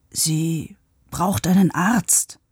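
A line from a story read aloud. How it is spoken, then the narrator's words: Whispering into silence. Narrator (German): flüsterte Paavo in die Stille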